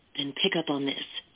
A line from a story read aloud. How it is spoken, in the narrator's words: he said, lowering his voice for her ears alone